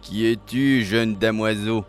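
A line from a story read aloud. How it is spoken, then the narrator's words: Gravelly-voiced question. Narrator (French): demanda-t-il d'une voix rocailleuse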